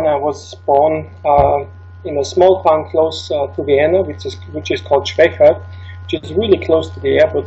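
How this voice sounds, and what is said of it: Austrian accent in English. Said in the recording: “my accent ... I didn't know you were Austrian”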